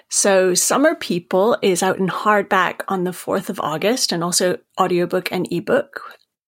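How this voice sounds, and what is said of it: Maine accent. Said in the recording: “I, am from Maine, as you can tell from my accent.”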